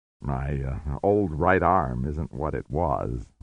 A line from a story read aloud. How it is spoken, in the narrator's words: War murmured